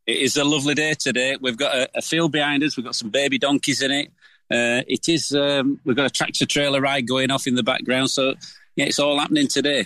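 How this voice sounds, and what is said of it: Yorkshire accent. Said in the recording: “That sounds like a proper Yorkshire accent.”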